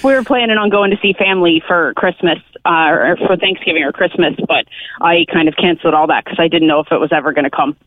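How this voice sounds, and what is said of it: American accent. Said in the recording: “I'm American by the accent.”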